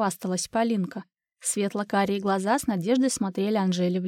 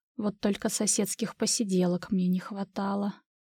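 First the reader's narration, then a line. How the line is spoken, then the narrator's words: Inward groan. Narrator (Russian): Внутренне застонала Анжела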